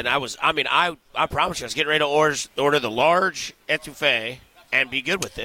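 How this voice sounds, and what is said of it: Missouri accent. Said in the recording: “I'm 100% saying that word wrong and with a Missouri accent”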